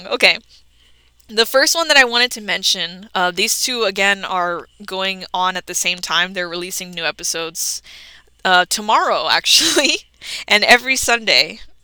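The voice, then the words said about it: Scratchy, strained voice. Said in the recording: “my voice is getting scratchy.”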